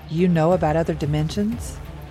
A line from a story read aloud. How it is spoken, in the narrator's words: Jeb chuckled again